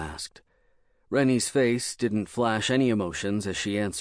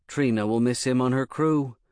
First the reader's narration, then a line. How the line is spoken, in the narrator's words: Rennie said